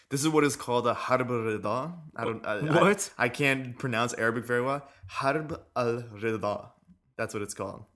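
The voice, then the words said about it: American accent pronouncing Arabic words. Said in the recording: “You have an accent, dude. You have an American accent.”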